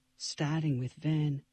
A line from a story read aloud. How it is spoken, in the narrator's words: Ellie whispered